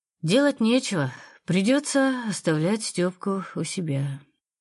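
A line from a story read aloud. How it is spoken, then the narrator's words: Heavy sigh. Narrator (Russian): тяжело вздохнула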